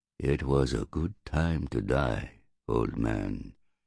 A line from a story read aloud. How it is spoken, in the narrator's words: he said softly